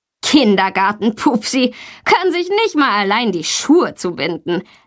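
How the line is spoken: Laughing, mocking. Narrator (German): lacht Tommy

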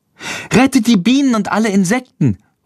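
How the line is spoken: Calling out. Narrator (German): ruft Lilly

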